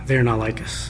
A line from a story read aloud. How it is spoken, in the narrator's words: So we mumbled